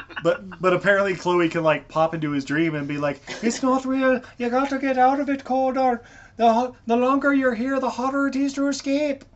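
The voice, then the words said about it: Put-on accent like a TV character. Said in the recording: “my accent is heavily influenced by Rowena from Supernatural.”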